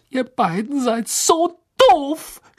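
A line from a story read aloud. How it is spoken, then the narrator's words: Shouted. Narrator (German): schrie sie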